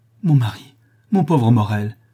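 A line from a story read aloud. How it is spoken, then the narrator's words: Woman exclaiming. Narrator (French): s'écria la femme du lapidaire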